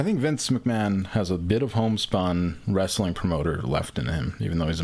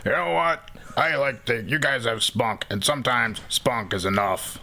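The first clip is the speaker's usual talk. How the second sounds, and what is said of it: Imitates another person's voice. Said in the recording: “my fucking impression ... was really good”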